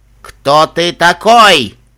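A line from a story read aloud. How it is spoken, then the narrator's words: Growled. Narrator (Russian): прорычал Каракакон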